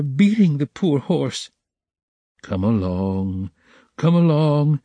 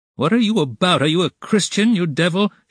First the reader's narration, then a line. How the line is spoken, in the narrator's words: shouted an old man in the crowd